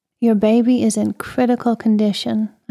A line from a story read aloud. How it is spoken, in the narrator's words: I said